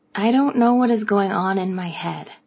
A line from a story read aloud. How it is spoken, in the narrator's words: I sighed